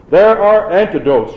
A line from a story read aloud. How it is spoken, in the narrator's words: she shouted